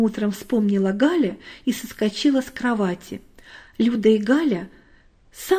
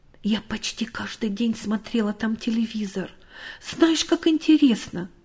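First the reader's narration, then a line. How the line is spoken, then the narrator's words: Girl speaking quietly. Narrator (Russian): Люда негромко сказала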